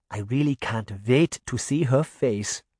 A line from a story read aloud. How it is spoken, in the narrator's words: Granny said softly